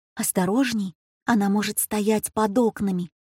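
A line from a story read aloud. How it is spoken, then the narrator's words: Whisper. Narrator (Russian): Жозеана прошептала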